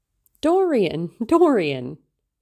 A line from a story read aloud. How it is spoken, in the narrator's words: she cried